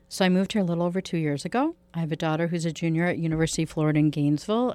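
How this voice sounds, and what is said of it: Chicago Midwestern accent. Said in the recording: “from Chicago, if you can't tell by her accent ... I hear that Midwestern accent right away”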